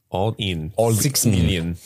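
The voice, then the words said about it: John Malkovich's absurd Russian accent. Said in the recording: “It's a John Malkovich Russian accent. ... he's doing this absurd Russian.”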